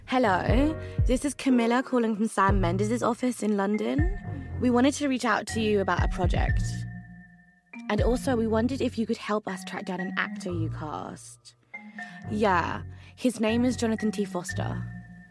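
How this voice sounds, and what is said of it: Nice English accent. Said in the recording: “Speaking the right way, especially with a nice English accent”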